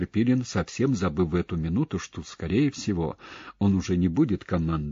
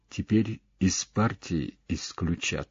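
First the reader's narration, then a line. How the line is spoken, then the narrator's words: Quiet pained sigh. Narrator (Russian): тихо вздохнув, потому что глубоко вздыхать ему было больно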